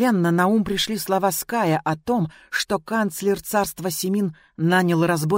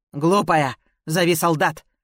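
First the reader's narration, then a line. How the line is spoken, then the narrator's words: Dragon's growl. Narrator (Russian): рыкнул дракон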